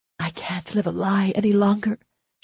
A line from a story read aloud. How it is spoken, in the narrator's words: she whispered